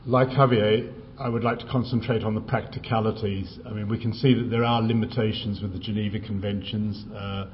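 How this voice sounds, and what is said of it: Speaks English with a noticeable accent. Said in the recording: “Please complain if you can't understand my accent.”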